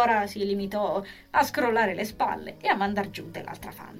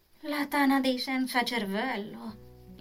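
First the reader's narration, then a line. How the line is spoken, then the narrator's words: Weary interjection with big sigh. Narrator (Italian): intervenne, accasciata ancora sulla panchina, esalando poi un gran sospiro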